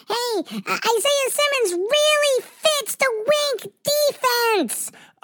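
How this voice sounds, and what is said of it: Imitates another person's voice. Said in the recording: “it's my Carl Banks impression.”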